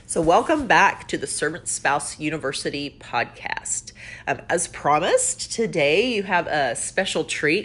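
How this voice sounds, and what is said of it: Stuffy, congested-sounding voice. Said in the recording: “I sound kind of stuffy, don't I? I guess it's the allergies”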